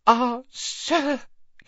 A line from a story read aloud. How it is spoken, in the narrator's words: he gasped